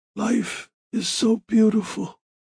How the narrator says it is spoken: he whispered

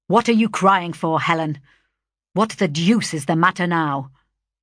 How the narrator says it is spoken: impatiently exclaiming

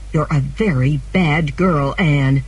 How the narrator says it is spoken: Marilla said angrily

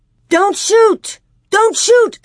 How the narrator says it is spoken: Almanzo yelled

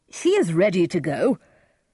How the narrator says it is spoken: Lord Capulet cried

